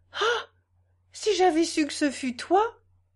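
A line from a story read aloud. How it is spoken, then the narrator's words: Exclaimed. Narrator (French): Hortense s'écria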